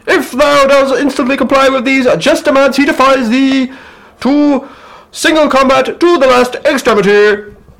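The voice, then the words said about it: Formal proclaiming herald voice. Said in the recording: “that's how heralds talk, isn't it? I want to do my herald voice.”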